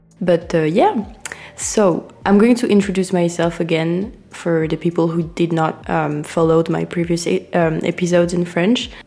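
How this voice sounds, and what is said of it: Congested, nasal sick voice. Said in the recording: “sorry for my voice because um, as you can see, I'm sick, so I'm just talking with my nose a bit.”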